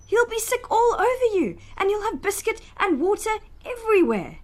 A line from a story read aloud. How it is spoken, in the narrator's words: cried Mama